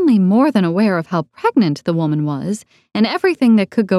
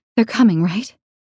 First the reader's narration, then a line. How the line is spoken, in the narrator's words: Emily asked, her voice shaking